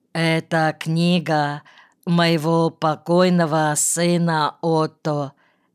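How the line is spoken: Slow reply. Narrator (Russian): медленно ответил Квангель

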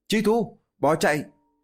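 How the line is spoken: Loud shout. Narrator (Vietnamese): Lý Tuyết hét lớn một tiếng

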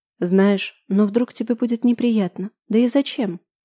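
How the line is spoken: Whisper. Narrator (Russian): прошептала Лада

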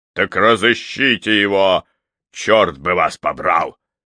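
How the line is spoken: Relieved roar. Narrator (Russian): Проревел сэр Уильям, радуясь возможности выплеснуть наружу часть накопившейся и запертой внутри тревоги, беспокойства за Тайрера

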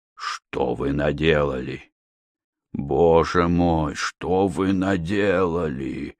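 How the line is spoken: Groaning. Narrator (Russian): Простонал он

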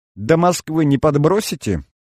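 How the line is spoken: Cheerful twin chirping. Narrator (Russian): Весело защебетали близняшки

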